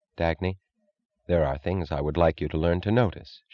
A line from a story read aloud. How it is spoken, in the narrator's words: she said